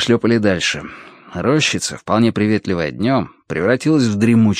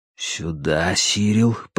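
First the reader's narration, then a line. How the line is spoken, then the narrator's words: Whisper. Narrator (Russian): прошептал я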